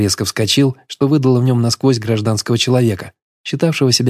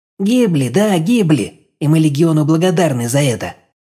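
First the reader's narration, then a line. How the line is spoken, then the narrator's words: Village elder, shrill rapid. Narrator (Russian): визгливо зачастил староста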